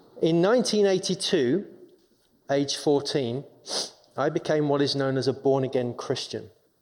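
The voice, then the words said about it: English London accent. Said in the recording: “as you can tell from my accent ... I'm from England. I'm born and raised in London”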